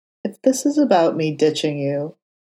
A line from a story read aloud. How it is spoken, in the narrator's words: Matt sighed and said quietly